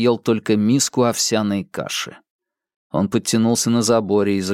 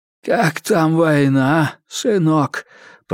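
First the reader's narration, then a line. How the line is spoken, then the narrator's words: Wheezing. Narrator (Russian): просипел он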